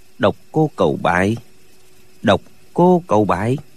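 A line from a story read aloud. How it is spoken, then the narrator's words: Muttering. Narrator (Vietnamese): Lệnh Hồ Xuân lẩm bẩm nói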